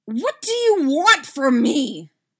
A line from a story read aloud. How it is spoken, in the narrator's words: Dustin screams